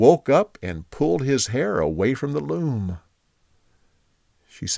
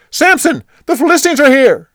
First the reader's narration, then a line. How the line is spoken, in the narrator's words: she yelled